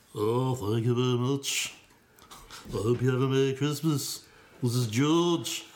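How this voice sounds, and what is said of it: Convincing put-on Liverpool accent. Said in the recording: “That convincing Liverpool accent.”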